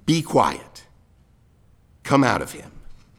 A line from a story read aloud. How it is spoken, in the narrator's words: Jesus sternly said